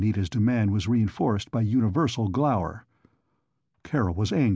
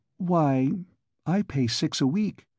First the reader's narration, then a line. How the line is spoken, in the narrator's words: she feebly confessed